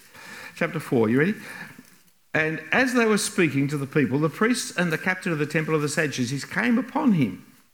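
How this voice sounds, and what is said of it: English accent. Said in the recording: “accent that you can't understand. It's called pure English... speaking without an accent”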